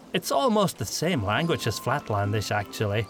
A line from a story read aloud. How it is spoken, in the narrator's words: Faderhal said